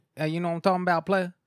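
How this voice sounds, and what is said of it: Imitated Southern US accent. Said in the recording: “He has my favorite accent, like that southern”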